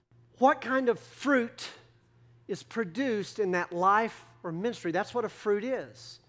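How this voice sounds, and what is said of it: Texas accent. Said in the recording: “my Texas accent kind of confuses those consonants”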